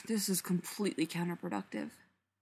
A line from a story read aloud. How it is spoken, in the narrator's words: Spencer mutters to her coffee